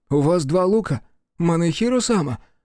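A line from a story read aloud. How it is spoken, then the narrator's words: Confused servant asking. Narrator (Russian): растерянно спросил слуга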